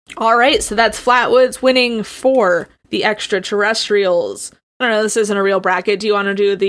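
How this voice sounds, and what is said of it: Usual voice. Nothing is said of it.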